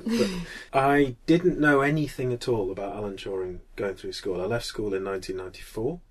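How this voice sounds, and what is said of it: Strong Mancunian accent. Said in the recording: “my strong Mancunian accent”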